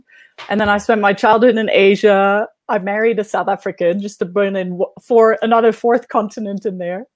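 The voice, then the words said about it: European-sounding accent. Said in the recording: “My parents are European, if you're trying to figure out the accent while you're listening.”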